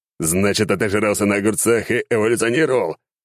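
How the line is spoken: Growling. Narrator (Russian): рыкнул я

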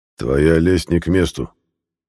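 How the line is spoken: Cold interruption. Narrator (Russian): холодно оборвал Илла

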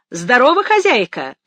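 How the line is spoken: Hailing call. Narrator (Russian): окрикнул он

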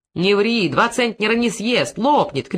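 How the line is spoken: Shout from audience. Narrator (Russian): крикнул кто-то из зала

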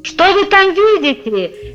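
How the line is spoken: Shouted back. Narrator (Russian): кричал в ответ

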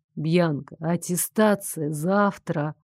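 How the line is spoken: Slow, patronizing. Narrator (Russian): Медленно, словно втолковывая неразумному ребенку, проговорил Дарек

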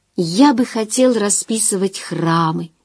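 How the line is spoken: Quiet, thoughtful. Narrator (Russian): тихо и задумчиво проговорил

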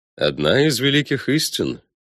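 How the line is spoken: Calm confirmation. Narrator (Russian): спокойно подтвердил победитель Дриксов

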